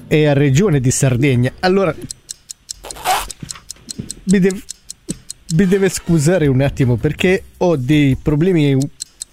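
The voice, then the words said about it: Put-on Sardinian accent. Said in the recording (Italian): “bellissimo l'accento sardo ... Sei diventato cinese a un certo punto ... Di solito riesce bene a fare il sardo”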